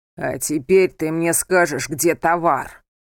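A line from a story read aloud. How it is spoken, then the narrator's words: Booming voice. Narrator (Russian): Прогремел голос Лазера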